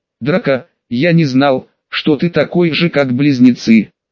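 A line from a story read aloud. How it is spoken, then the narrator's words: Offended tone. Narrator (Russian): произнес Рон обиженным тоном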